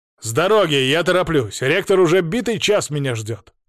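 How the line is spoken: Irritated bark. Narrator (Russian): гаркнул я, раздраженно

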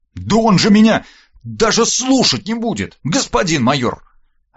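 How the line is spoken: Indignant, nearly shouting, then quieter. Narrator (Russian): От возмущения Верт чуть не закричал, но вовремя спохватился и убавил громкость

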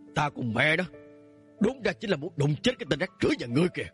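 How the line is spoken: Angry. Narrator (Vietnamese): Lạc Bắc Mâu tức giận nói

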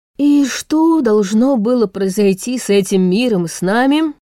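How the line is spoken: Muffled remark. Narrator (Russian): глухо добавил за спиной Йонас

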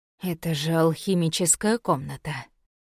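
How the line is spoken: Breathless exhale. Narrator (Russian): выдохнул Сорин, прежде чем осознал, что сказал это вслух

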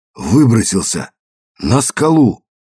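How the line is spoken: Hoarse wheeze. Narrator (Russian): прохрипел

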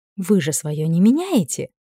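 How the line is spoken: Breathed out. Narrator (Russian): выдохнула

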